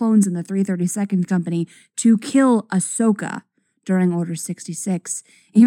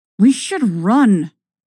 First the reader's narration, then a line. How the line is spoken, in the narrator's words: Ahsoka hisses at you